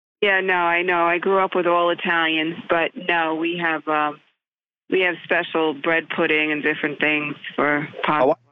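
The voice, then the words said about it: Italian New Jersey accent. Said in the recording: “you got that Italian New Jersey accent”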